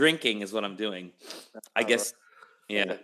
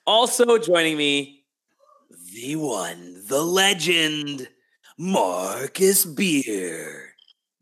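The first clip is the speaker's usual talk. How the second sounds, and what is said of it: Exaggerated radio announcer voice. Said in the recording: “my horrible radio voice.”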